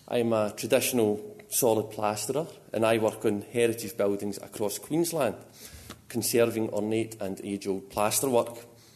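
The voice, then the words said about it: Scottish accent. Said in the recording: “that is a Scottish accent you hear”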